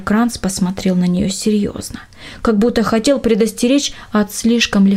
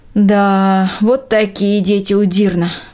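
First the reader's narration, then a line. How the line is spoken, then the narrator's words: Sighed. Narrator (Russian): вздохнула Трина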